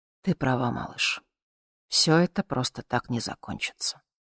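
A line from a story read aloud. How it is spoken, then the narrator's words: Barely audible whisper. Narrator (Russian): шепнул едва слышно, чтобы не разбудить Мишку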